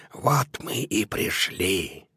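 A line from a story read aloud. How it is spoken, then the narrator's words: Whisper. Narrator (Russian): человек с фонарем прошептал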